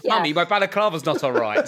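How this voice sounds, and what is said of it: Posh English accent, attempted Danish. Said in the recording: “I tried to do a Danish accent and I had no idea what one was, so I just did posh English ... Like Margot from The Good Life”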